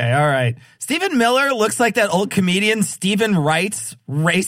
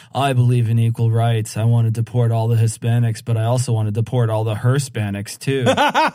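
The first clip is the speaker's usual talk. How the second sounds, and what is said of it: Deadpan flat comedic delivery. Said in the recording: “This is all deadpan routine.”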